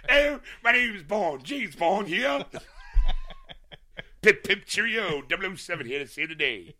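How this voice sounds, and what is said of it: Put-on British accent. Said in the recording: “we want you to do a British accent”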